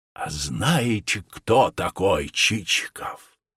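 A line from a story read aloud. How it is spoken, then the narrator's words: Exclaimed. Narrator (Russian): Он воскликнул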